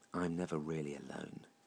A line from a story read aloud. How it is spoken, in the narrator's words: whispered Lucifer, knowingly, almost craftily